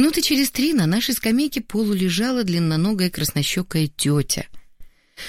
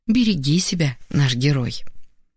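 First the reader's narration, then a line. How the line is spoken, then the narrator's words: Tender smiling whisper. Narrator (Russian): Ласково улыбнувшись, шепотом добавила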